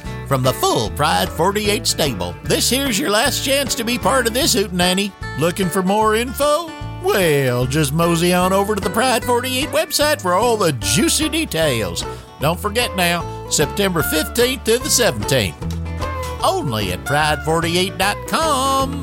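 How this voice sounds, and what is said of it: Folksy Arkansas accent. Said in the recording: “That's the Arkansas accent.”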